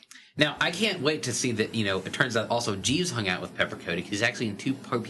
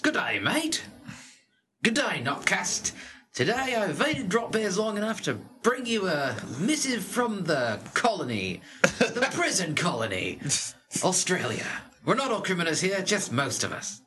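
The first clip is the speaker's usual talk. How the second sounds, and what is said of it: Put-on Australian accent. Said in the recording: “I should have read the other ones in an Australian accent. ... For murdering the language.”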